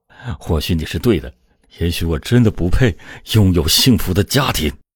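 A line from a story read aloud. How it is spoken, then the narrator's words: Low cursing. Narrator (Chinese): 他低声的咒骂道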